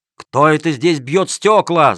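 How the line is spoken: Guards shouting. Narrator (Russian): закричали стражники

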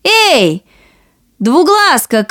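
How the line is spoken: Two voices shouting together. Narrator (Russian): крикнули обе сестры

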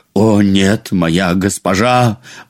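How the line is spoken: Exclaiming. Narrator (Russian): воскликнул он

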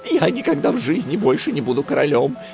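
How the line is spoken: Frightened answer. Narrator (Russian): испуганно ответил тот

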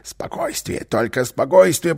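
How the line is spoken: Whisper. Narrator (Russian): прошептал Карлсон

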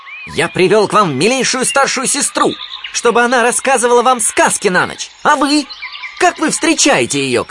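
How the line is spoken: Shouting. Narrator (Russian): кричал он

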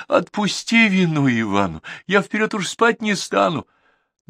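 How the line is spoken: Sobbing plea. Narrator (Russian): Иванушка заплакал и, рыдаючи, просил

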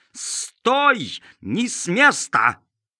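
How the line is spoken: Yelling. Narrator (Russian): Он завопил

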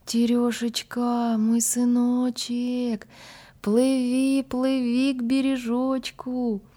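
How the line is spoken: Thin high calling. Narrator (Russian): мать ... стала звать сына тоненьким голоском

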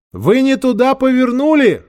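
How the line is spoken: Shouted. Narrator (Russian): крикнула Ольга

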